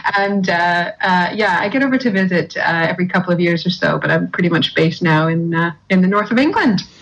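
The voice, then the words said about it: Broad Canadian accent. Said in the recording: “still have quite a broad Canadian accent”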